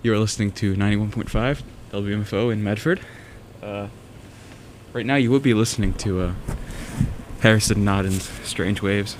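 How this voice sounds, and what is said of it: Out of breath, panting. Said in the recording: “I'm a bit out of breath. I ran here”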